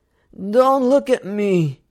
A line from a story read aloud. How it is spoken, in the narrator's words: he slurs